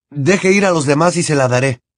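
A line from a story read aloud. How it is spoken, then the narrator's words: Desperate exclamation. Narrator (Spanish): exclamó Harry desesperado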